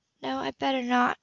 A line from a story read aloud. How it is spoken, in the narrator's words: she said softly